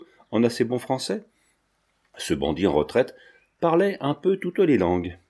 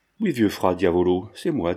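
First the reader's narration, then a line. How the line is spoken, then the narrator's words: Cheerful. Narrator (French): dit gaiement l'artiste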